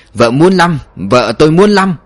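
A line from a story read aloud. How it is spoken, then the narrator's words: Delighted, childlike shout. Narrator (Vietnamese): Anh thuyền trưởng khoái lắm, hét lên như đứa trẻ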